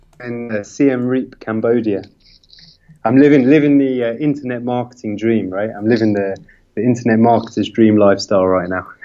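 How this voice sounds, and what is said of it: UK accent. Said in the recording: “He may have a UK accent”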